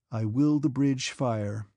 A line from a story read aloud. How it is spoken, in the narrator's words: he said in a solemn tone, as if to announce that in spite of all the unpleasantness he had to endure, he would still do the right thing